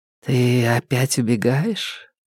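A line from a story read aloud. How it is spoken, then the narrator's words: Drowsy purr. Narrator (Russian): промурлыкала Марта, не открывая глаз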